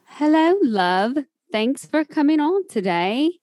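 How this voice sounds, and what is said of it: Good put-on posh English accent. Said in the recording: “That's an amazing English accent you have there ... You sound very posh ... I love using my English accent”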